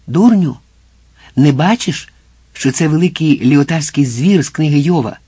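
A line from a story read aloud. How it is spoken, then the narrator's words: Fiery exclamation. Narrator (Ukrainian): Сальватор, палахкучий, мов чорт, і вигукнув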